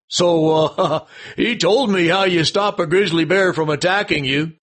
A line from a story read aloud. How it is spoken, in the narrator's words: chuckled the desk sergeant